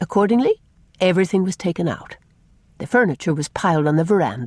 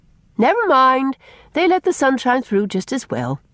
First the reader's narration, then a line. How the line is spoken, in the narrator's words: said Faith cheerfully